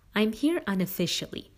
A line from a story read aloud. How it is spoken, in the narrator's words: the president kindly informed Allison